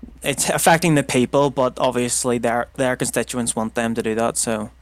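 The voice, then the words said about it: Northern Irish accent. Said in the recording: “your accent, which, as I said, is an interesting topic ... obviously very distinct and definitely different from, for example, British RP ... the Northern Irish accent”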